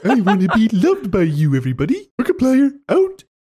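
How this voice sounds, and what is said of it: Imitating Jessica Rabbit. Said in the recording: “this one sounds a lot like Jessica Rabbit ... I don't think that's even a good impression.”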